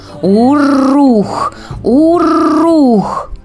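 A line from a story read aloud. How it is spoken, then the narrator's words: Ferocious animal growl. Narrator (Russian): Ягуар свирепо зарычал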